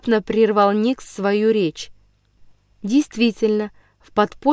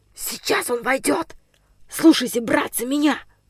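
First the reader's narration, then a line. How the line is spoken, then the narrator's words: Whispered command. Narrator (Russian): скомандовал шепотом Денис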